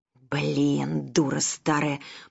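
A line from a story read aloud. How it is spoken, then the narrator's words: Grumble, young woman. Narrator (Russian): проворчала девица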